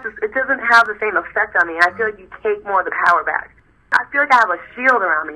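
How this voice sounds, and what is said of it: Usual voice. Nothing is said of it.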